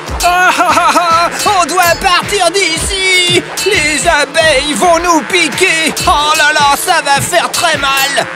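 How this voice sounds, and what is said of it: Shouting. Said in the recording (French): “Arrête de crier!”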